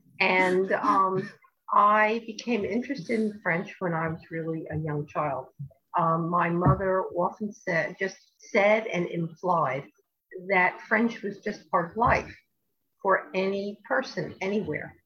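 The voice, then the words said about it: New York area American accent. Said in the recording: “I'm from New Jersey, as you can probably tell from the New York area.”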